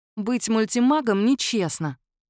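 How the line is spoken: Grumble. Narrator (Russian): буркнула Дита

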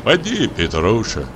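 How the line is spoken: Soft fatherly voice. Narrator (Russian): сказал Денис мягким отеческим голосом

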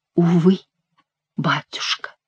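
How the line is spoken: Whispered. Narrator (Russian): прошептала Диана

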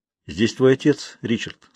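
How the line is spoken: Calm. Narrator (Russian): спокойно сказал он

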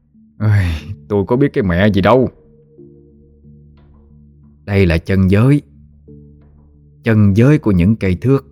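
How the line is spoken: Sighing, self-lamenting. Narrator (Vietnamese): Tâm thở dài, nói như tự than vãn

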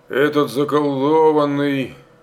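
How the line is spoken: Grumbling. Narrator (Russian): ворчал кое-кто в окопе

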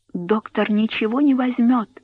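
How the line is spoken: Whisper. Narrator (Russian): прошептала она

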